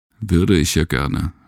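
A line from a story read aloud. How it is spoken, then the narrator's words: Tired, amused. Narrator (German): schmunzelte Gustav müde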